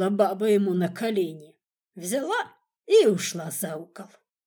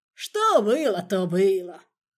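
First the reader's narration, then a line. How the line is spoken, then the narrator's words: Displeased grumble. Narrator (Russian): пробурчал он, недовольный таким оборотом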